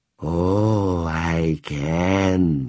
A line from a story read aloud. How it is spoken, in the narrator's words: she breathed